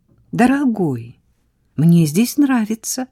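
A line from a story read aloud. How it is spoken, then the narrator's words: Exclaimed. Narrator (Russian): воскликнула Сара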